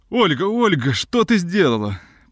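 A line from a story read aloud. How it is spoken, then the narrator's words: Sad. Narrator (Russian): произнес печально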